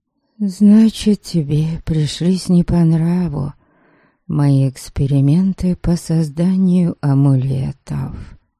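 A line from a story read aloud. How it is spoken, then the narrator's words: Sad summary. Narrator (Russian): печально резюмировала я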